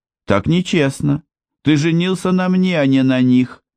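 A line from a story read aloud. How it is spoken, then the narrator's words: Yelling. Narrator (Russian): заорала она как-то ночью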